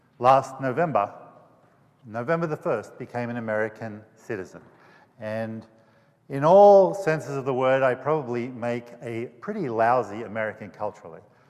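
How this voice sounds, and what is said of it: Funny non-American accent. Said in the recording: “I have a funny accent for an American.”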